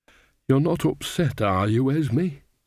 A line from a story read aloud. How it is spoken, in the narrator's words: said Nanny anxiously